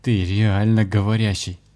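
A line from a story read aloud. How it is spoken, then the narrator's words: Taken aback. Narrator (Russian): опешил Виталий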